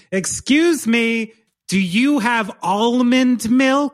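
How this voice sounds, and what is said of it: Put-on posh WASP accent. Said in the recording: “You start talking like a wasp.”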